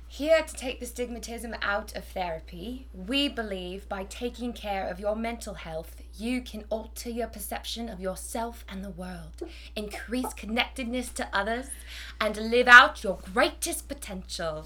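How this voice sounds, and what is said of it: Put-on English accent. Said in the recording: “goes into an English accent. ... I think that was great. That was really wonderful.”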